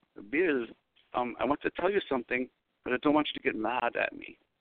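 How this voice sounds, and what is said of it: Imitated Brazilian accent, rough attempt. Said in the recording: “I have a Brazilian friend ... I'll try to copy her accent. It's pretty bad, but I'll try.”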